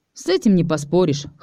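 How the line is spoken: Wry snort. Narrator (Russian): хмыкнул я

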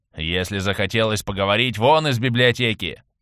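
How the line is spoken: Grumbling old man. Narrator (Russian): ворчать седовласый хранитель шаманской книги

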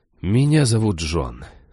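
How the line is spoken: Sigh. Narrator (Russian): вздохнул я

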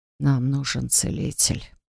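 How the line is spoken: Whispered. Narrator (Russian): прошептал Арвин

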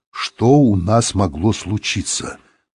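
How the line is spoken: Through clenched teeth. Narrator (Russian): сказал он сквозь зубы

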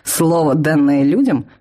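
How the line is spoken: Snorting. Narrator (Russian): фыркнул Лен

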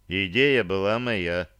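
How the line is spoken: Calm objection. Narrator (Russian): спокойно возразил Рейнован

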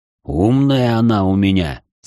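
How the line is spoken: Proud deep bass. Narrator (Russian): с гордостью пробасил пламень

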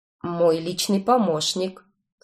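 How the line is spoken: Calm explanation. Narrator (Russian): спокойно объяснил Этан

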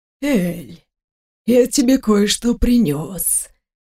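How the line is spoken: Whisper. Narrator (Russian): прошептал Карсентер

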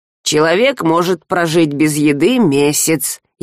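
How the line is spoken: Snide agreement. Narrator (Russian): ехидно поддакнул Альк

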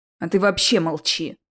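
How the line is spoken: Sudden angry tone. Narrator (Russian): неожиданно зло сказал Невилл

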